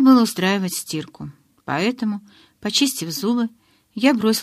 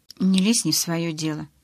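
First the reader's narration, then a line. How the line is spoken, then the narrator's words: Muttered under breath. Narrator (Russian): пробормотала я себе под нос, чтобы Чарли не услышал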